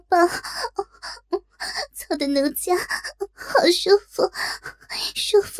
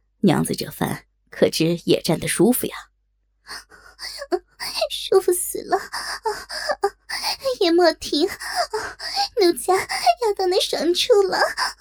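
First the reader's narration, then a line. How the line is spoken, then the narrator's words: Lewd laugh. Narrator (Chinese): 淫笑道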